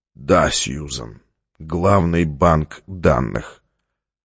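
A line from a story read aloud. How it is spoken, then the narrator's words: Flat, toneless voice. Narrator (Russian): Стратмор произнес бесцветным голосом, видимо, уже все поняв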